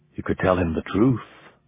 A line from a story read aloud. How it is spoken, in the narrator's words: a small voice in the back of Ramon's mind murmured